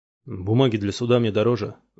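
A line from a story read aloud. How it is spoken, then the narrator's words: Grumbling. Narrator (Russian): заворчал Флавин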